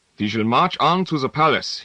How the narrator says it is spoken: said in his German accent

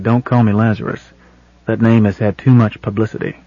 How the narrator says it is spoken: said quietly

